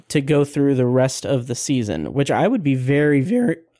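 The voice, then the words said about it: Voice cracks mid-sentence. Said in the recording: “my voice cracked so terribly”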